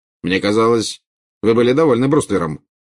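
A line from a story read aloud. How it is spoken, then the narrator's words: Cold remark. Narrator (Russian): холодно заметил Скримджер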